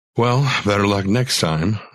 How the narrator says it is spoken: I sighed

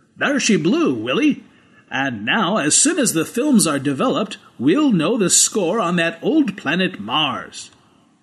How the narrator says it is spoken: Rog Everett said triumphantly

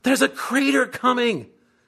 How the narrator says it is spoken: Sandy screams

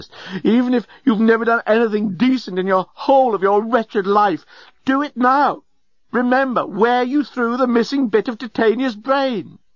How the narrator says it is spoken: cried the journalist

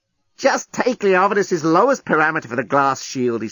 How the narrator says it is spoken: he snapped

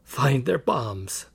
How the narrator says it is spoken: croaked

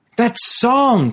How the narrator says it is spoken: cried Jaren, wild-eyed

